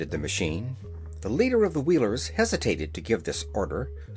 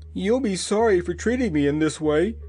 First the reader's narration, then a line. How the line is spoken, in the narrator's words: whined the wheeler